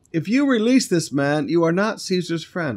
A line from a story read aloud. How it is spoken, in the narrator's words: the Jews cried out